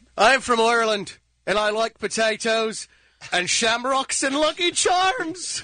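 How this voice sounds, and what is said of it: Put-on Irish accent. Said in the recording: “how about an Irish accent? ... Landed on Irish.”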